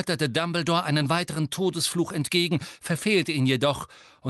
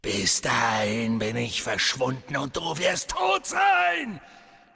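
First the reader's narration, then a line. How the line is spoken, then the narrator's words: Hissing snarl. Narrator (German): fauchte Voldemort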